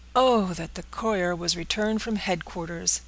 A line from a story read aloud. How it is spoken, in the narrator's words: exclaimed Dunwoodie